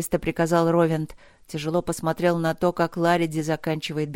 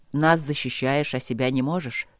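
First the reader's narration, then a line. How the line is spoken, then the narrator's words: Gloomy. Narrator (Russian): сказал мрачно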